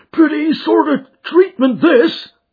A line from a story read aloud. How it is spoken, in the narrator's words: he cried